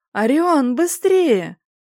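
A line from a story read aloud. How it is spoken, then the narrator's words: Frantic scream. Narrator (Russian): завопила не своим голосом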